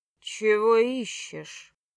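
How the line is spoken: Man asking. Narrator (Russian): Мрачно мужчина спросил

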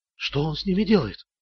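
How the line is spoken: Whisper. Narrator (Russian): прошептала

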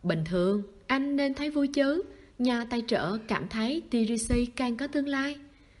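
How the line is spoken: Brief pause, smiling. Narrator (Vietnamese): Kỳ Túy hơi khựng lại, mỉm cười

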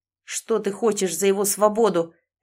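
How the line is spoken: Barked. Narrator (Russian): рявкнул Сэм

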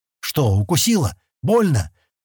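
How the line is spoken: Frightened. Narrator (Russian): испуганно спросил Стэн

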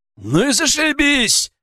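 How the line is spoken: Loud bark. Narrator (Russian): гаркнул Баттер

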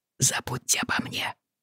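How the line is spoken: Muttered. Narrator (Russian): пробормотал Патрик

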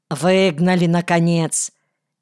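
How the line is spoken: Careless smirking mutter. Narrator (Russian): небрежно усмехнулся и буркнул

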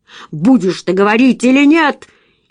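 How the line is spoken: Barked. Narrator (Russian): отец рявкнул

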